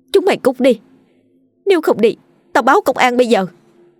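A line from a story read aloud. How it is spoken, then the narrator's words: Weak, desperate scream. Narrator (Vietnamese): Lấy chút sức tàn, cô thét lên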